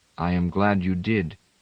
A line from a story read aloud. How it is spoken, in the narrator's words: Itale said in his quiet voice